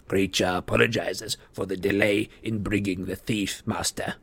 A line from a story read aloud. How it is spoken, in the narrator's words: croaked the elf